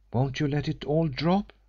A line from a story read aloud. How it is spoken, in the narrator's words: she pleaded